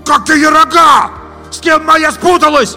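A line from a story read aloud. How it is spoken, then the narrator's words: Shouting after them. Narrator (Russian): опомнившись, кричал им вслед Витя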